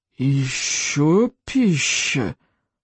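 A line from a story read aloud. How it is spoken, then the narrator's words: Surprised monster hiss. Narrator (Russian): удивленно прошипело чудовище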